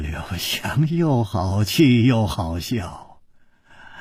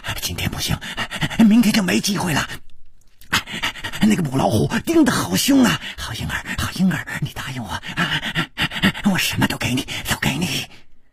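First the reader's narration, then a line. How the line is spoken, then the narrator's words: Heavy panting. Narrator (Chinese): 师传宗的喘息声更粗了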